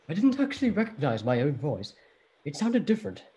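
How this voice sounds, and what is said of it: Imitates another person's voice. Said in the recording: “I'll do my best Sir Patrick Stewart impression... If that's a good Sir Patrick Stewart impression”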